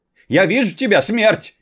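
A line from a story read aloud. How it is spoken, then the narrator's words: Old woman shouting. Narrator (Russian): крикнет старушка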